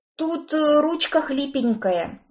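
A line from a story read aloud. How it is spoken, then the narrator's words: Very soft breathy murmur. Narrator (Russian): тихонечко выдохнул Кроули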